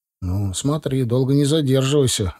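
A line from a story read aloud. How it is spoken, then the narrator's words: Sighing. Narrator (Russian): вздохнул Гусев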